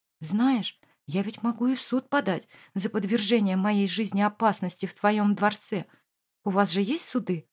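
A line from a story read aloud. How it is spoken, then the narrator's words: Hoarse, muffled against chest. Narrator (Russian): прохрипела в грудь мужчине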